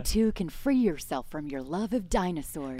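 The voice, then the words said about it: Good put-on American accent. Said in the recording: “That's a good American accent.”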